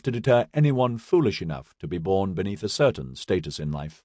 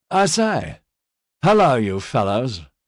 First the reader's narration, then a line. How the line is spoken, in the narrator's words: he slurred